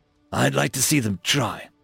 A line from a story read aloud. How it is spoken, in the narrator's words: Rykov growled